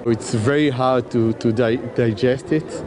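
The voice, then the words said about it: Shaky, emotional voice. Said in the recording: “my voice is a bit shaky”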